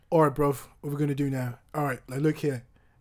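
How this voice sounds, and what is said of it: Put-on British accent. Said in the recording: “British accent, I think, is...”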